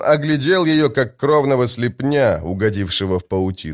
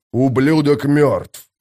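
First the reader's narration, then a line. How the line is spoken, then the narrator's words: Growled. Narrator (Russian): прорычал Боден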